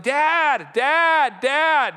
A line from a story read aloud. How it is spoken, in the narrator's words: he'll be yelling